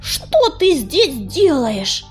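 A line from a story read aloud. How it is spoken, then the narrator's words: Hissing. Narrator (Russian): прошипел он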